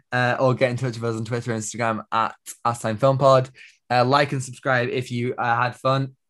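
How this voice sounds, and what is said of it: Strained, fading voice. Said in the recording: “I think I'm losing my voice as well. This is horrible.”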